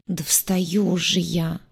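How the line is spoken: Sleepy grumble. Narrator (Russian): сонно буркнула она

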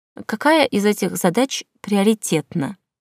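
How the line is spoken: Businesslike inquiry. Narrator (Russian): Деловым тоном осведомилась я

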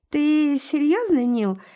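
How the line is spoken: Giggling. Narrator (Russian): хихикает она

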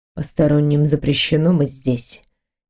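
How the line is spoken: Quiet. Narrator (Russian): тихо проговорил черный палач

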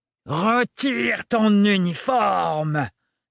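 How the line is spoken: Fearless roar. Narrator (French): rugit le sans-peur

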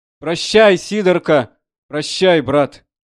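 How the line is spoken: Shouts from all sides. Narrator (Russian): кричали со всех сторон

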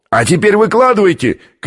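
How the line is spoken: Shout from below. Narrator (Russian): крикнул снизу австралиец

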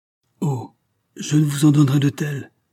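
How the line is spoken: Exclaimed. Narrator (French): s'écria Clamoran

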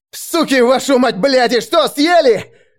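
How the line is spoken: Yelling. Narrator (Russian): орал я

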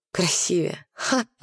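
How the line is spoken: Hoarse voice. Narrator (Russian): Голос Скиап был хриплым

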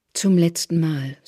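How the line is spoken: Plain. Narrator (German): sagt Therese

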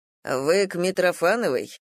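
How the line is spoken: Stern question. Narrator (Russian): строго спросил врач

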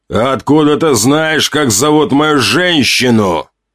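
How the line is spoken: Growl. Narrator (Russian): прорычал Ранд

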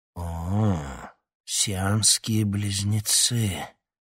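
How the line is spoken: Breathed out. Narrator (Russian): выдохнул он

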